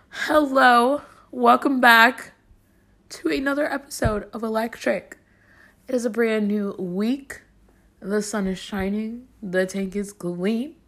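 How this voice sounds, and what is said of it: Voice partly gone, weak. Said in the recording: “my voice is kind of out because I haven't talked to anyone in a while”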